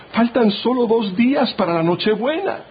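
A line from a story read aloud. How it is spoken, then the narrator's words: Woman exclaiming. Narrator (Spanish): exclamó la esposa del pastor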